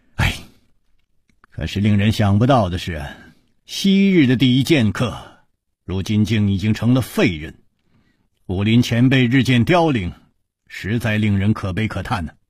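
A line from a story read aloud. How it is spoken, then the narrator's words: With a long sigh. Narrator (Chinese): 楚留香长叹说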